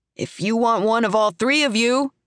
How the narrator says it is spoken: he shouts over the music

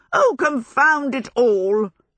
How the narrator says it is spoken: Sophie yelled

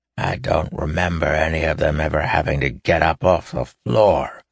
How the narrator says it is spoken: Davian spat

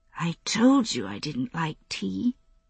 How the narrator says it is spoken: she mumbled

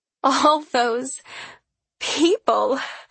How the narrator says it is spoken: she gasps

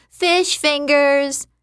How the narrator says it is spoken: That little brat Oates ran around shouting

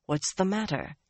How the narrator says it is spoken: he murmured

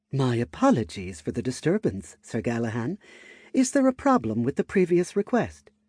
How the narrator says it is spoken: she asked, in a polite tone

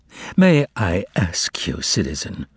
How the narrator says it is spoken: the man in tussore silk inquired sadly

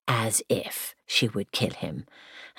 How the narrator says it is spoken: Elizabeth scoffed and said

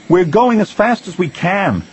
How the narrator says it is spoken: Anakin cried

